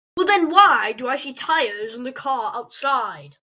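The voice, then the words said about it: Exaggerated British accent. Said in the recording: “you sound really British.”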